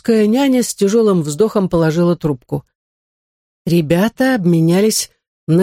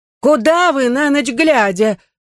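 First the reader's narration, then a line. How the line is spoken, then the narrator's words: Shouting after them. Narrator (Russian): только и успела крикнуть она им вслед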